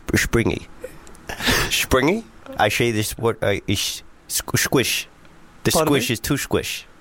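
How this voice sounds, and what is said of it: Put-on Dutch accent. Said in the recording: “springy was the best word to say in a Dutch accent, but it's very good ... I didn't know that I could do a Dutch accent”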